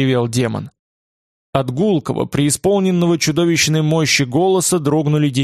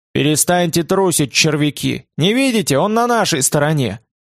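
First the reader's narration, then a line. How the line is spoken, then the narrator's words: Stern, commanding sorcerer. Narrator (Russian): Колдун ответил строгим и властным голосом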